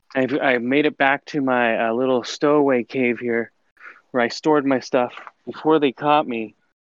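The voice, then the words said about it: Out of breath, panting. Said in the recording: “I'm out of breath.”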